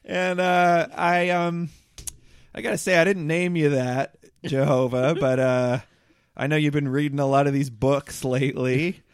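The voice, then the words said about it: Put-on accent. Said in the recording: “I'm still deciding on my accent, but I think it's this.”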